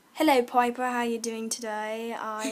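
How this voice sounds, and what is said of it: Put-on English accent. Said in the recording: “Can I hear some of your accents? ... Is that your English accent? Sure. Yeah.”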